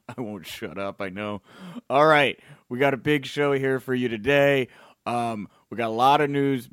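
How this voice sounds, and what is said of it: Strained, worn-out voice. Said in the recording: “my voice is worse today than it was yesterday? I'm like struggling here today.”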